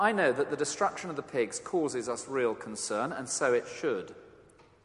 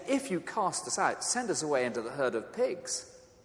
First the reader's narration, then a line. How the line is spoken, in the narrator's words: the demons begged him, saying